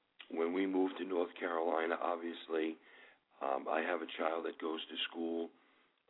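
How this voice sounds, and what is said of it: New York accent. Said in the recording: “We speak with a New York accent ... as soon as we say hello, they know that we're from New York.”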